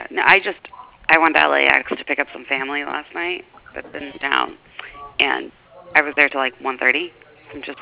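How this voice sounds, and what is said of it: Voice sounds a little off. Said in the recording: “my voice is a little funny today.”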